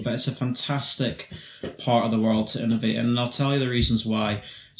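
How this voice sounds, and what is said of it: Scottish accent. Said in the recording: “So my accent is, of course, a dead giveaway”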